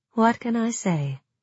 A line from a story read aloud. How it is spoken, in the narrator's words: asked Jenya dryly